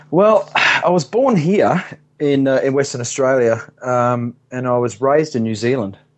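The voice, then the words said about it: Slight non-local accent. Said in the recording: “You having a bit of an accent.”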